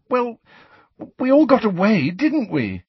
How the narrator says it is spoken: said Cho pleadingly

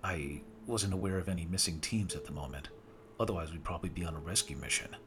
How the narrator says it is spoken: I said

